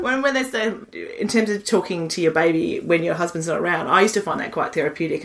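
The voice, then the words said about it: Australian accent. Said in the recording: “they spoke in a really thick Australian accent because they'd only hung out with me”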